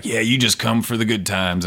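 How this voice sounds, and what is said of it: Gruff imitation of another person. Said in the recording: “he gets a little gruff ... this is my Tim impression.”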